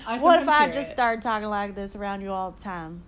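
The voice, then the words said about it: Fake Southern accent. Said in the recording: “my family from down south, because they are very accented ... It's fake.”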